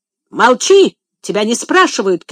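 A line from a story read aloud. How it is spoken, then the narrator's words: Boy shouting. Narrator (Russian): крикнул мальчик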